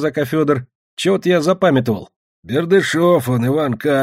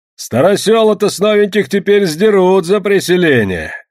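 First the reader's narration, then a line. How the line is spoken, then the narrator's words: Cheerful shout. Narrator (Russian): весело крикнул он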